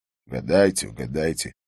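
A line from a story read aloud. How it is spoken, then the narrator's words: Grumbling. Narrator (Russian): проворчал Харри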